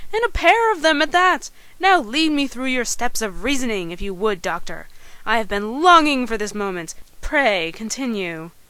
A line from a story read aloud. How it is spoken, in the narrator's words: exclaimed